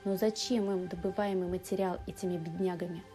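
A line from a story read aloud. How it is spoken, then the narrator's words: Plain. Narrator (Russian): спросил Рот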